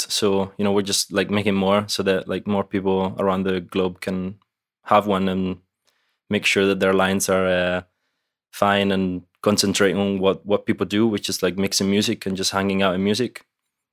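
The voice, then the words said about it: Scottish accent. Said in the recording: “I'm a little confused by your accent real quick. You're in Italy, but you're clearly not Italian. ... I lived in Glasgow in Scotland for about 11 years. So that's where I picked up my accent.”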